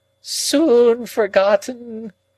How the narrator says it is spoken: moaned Miss Havisham

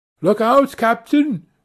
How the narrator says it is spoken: Erie cried

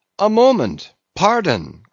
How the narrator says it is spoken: cried another of the company

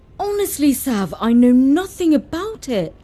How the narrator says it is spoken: pleaded Dad

